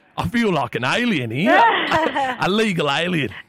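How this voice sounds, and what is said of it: Put-on English accent. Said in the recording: “you can hear it in my accent when I talk... I'm an Englishman who's just moved to York”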